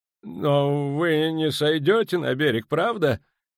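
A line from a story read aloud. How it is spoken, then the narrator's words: Strained, nervous. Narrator (Russian): выдавил из себя Ван Влит, слегка побледнев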